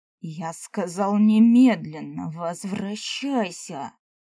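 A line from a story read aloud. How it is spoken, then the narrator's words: Angry clipped words, letter by letter. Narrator (Russian): Чуть ли не по буквам гневно процедил эльф в моей голове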